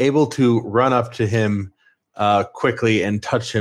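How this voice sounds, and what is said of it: Usual voice. Nothing is said of it.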